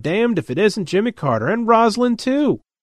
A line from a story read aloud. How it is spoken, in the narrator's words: Fred's exclaimed